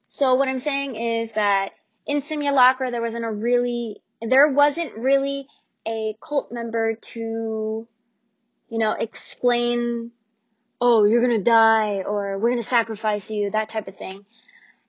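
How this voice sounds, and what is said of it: Tired, rambling speech. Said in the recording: “If I'm rumbling, I'm really sorry. Or my accent is coming out. I'm really, really tired.”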